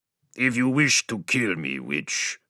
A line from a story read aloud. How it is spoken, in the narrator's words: growled